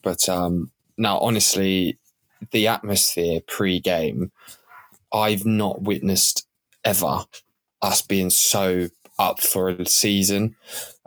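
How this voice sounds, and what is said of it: Croaky, partly lost voice. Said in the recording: “I've kind of lost my voice a little bit. It's a little bit croaky”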